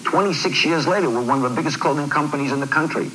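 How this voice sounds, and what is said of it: Possible New York accent. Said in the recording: “I could never figure out the accent. I don't know if that's New York. ... He was from New York. He was an Armenian gentleman from New York.”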